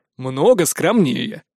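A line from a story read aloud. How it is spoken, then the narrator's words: Plain. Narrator (Russian): ответил Древень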